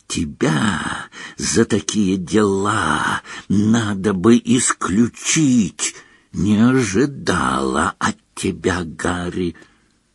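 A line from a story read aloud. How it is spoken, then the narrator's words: Hissing close to ear. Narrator (Russian): Наклонившись к уху она зашипела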